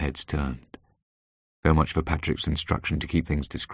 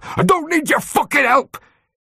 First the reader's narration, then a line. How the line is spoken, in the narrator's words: spat out the words